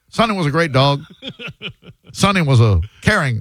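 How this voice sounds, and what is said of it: Imitates a comedian's voice. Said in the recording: “Who is a comedian? Are you doing a Ron White? ... It's my patented tater salad impression. ... That's what it sounded like.”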